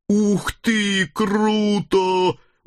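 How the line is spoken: Deep guttural growl. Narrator (Russian): утробно зарычала Хельга

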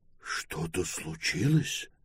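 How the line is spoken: Fearful whispered question. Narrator (Russian): шепотом спросил Пилород, видимо, боявшийся, что громкий голос может усилить поломку

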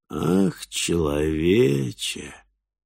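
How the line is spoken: Nasal drawl. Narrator (Russian): гнусаво протянуло создание

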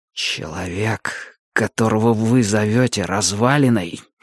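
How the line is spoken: Ominous near-whisper. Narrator (Russian): заговорил Мэтью едва ли громче зловещего шепота

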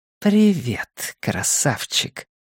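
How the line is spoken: Whisper. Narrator (Russian): прошептала Цара

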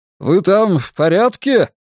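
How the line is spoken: Shouted. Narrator (Russian): крикнул мне Мэнсике

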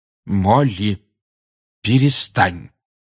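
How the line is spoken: Firm voice. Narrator (Russian): твердым голосом сказал Люпин

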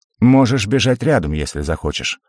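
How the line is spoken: Snort. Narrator (Russian): хмыкнул Арцивус

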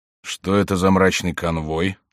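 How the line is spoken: Low-voiced question. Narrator (Russian): спросил он вполголоса

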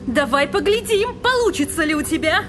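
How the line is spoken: Voice shaking with rage. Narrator (Russian): воскликнула Дженна вибрирующим от ярости голосом

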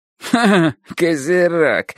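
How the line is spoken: Nasty sneering laugh. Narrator (Russian): смеялся он неприятно и даже как-то гаденько

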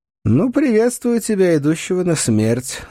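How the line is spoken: Mocking. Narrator (Russian): насмешливо бросил я

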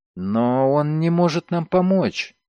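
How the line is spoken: Uncertain girl. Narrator (Russian): неуверенно сказала девушка

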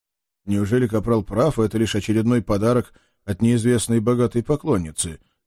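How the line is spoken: Uncertain mutter. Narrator (Russian): неуверенно пробормотал я

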